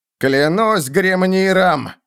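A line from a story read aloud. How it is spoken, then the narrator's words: Shouting. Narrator (Russian): закричал он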